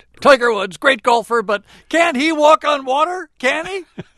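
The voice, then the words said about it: Skip Bayless impression. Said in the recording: “my Skip Bayless impersonation”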